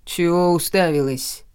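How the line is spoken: Rude address. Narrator (Russian): грубо обратился он ко мне

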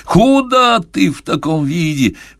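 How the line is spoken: Howling. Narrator (Russian): взвыл директор

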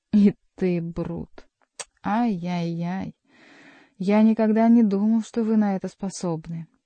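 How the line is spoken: Mock grief, forced sob. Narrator (Russian): убитый горем монах попытался выжать из своей груди рыдание

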